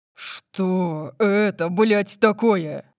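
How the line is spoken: Roaring. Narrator (Russian): Взревел он

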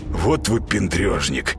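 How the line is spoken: Grumbling. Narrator (Russian): проворчал Зайка

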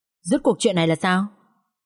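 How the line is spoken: Quiet speech. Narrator (Vietnamese): Bác xe ôm nói khẽ với Vũ

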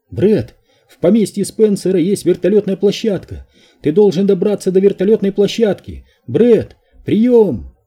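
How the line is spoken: Screechy, garbled radio voice. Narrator (Russian): Раздался высокий визгливый звук

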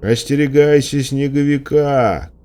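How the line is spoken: Shouting. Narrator (Russian): крикнул он

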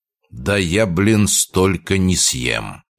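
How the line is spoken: Quiet remark. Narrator (Russian): тихо произнес

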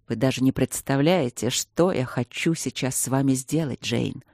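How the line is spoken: Quiet. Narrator (Russian): сказал он тихо

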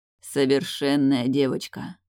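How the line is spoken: Hoarse whisper, coughing. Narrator (Russian): шепчет сипло, слегка кашляя

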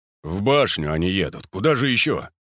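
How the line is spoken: Grumbling. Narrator (Russian): проворчал Герасимов

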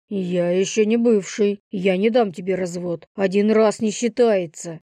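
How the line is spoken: Growled. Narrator (Russian): Прорычал он

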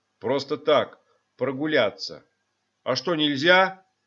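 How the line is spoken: Angry reply. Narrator (Russian): сердито ответил тот

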